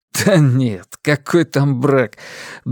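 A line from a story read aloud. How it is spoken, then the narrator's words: Involuntary laugh. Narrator (Russian): Бернард невольно рассмеялся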